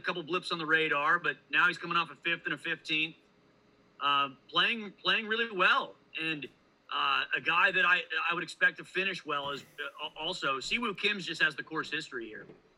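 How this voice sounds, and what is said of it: Fast, hyped-up speech. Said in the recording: “I'm talking really fast today. I'm just chugging a cold brew ... Just all hyped up”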